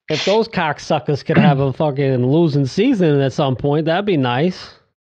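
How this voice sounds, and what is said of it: Put-on Boston accent. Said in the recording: “I just went Boston accent ... the go-to with the Boston accent”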